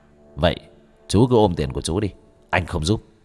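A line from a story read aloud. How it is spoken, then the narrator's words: Stern voice. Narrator (Vietnamese): Bác cổ nghiêm giọng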